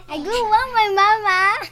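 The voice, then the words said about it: Baby-like talking voice. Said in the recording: “You talking like a baby ... why you sound like a baby?”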